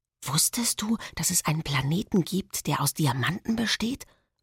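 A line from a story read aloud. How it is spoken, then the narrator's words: Whisper. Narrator (German): flüstere ich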